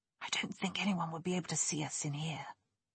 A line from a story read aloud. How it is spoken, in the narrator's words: Nick whispered